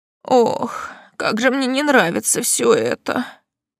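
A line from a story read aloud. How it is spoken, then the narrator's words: Muttered. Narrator (Russian): пробормотала тетушка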